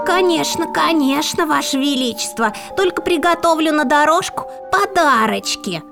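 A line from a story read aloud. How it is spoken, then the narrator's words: Spiteful hiss under breath. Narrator (Russian): злобно про себя прошипела старуха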